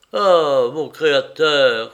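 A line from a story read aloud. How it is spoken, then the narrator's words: Hostess exclaiming. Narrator (French): s'écrie la maîtresse de maison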